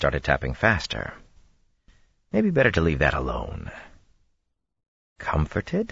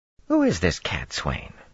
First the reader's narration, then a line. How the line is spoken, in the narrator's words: She said, so calmly